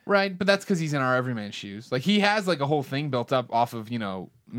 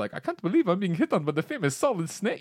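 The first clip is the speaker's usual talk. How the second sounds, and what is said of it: Imitates a game character's accent. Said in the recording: “Mei Ling in her terrible accent ... Your accent of that accent ... you sounded like the Ego Raptor version”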